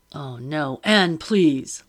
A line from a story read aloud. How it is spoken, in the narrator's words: Lockton groaned